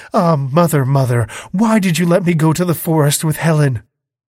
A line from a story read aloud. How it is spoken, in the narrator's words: she exclaimed